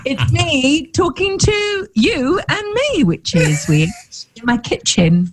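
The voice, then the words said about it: Polished radio presenter voice. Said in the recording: “got a radio voice on”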